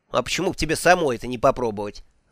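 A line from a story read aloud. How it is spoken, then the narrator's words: Angry snap. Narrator (Russian): зло огрызнулась Маград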